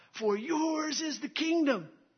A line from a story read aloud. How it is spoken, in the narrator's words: a football team shouts out